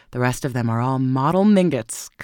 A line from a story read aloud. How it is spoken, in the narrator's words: cried the old lady scornfully